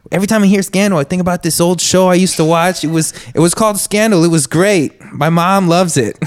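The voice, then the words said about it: Imitates another person's voice, poorly. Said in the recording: “that was a terrible impression”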